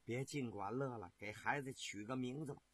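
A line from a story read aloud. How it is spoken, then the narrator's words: Sweet, gentle. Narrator (Chinese): 妻子心里甜丝丝的，柔声地说道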